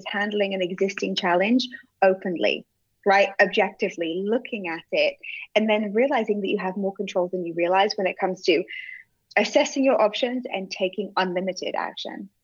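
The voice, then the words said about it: Speaks with a noticeable accent. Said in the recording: “I love your accent.”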